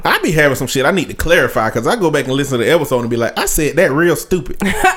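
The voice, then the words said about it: Southern Alabama country accent. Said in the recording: “Alabama ... I know I sound just like a country asshole, good old country boy.”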